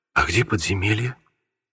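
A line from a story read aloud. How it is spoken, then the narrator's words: Whisper. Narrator (Russian): прошептал светловолосый Пьеро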